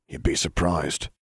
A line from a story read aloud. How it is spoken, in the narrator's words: Sirius muttered